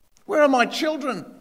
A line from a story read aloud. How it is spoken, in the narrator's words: he pleaded